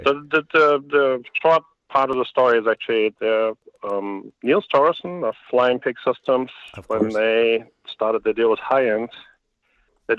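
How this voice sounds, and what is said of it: German accent. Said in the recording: “the terrible accent,... I'm a German native”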